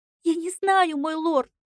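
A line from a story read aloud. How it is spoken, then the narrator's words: Sobbing, shaking. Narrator (Russian): Плакала горничная, сотрясаясь всем телом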